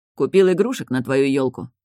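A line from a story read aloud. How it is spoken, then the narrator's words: Plain. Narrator (Russian): ответил Энджин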